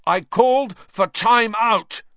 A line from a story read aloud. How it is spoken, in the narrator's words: Wood roared at his team